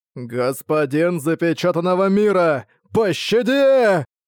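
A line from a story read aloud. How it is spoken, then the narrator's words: Old man's piercing desperate scream. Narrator (Russian): Пронзительно закричал старик, выражение отчаяния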